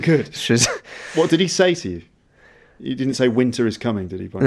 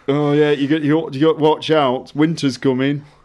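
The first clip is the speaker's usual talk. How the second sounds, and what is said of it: Bad Sean Bean impression. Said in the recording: “worst Sean Bean impression ever”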